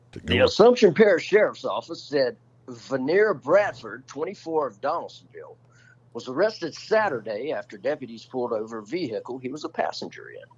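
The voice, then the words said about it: Radio announcer newsreading voice. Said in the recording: “I'm going to get with my radio voice.”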